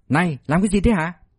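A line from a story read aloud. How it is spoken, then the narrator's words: Shouting, timid. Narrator (Vietnamese): quát tháo chứ không dám tới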